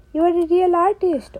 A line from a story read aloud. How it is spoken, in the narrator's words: old Puffer Pete exclaimed